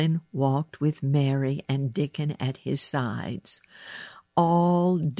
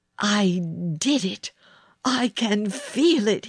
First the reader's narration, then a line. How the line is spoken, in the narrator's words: he cried